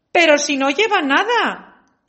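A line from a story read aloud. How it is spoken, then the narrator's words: Child's sudden exclamation. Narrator (Spanish): exclamó de pronto un niño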